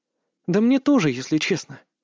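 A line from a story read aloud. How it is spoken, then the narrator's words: Sigh. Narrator (Russian): вздохнула Илона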